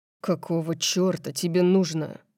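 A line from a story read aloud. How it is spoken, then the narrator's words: Growled. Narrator (Russian): Дариус зарычал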